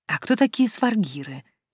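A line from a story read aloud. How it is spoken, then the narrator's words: Quiet question. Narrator (Russian): тихонько спросила я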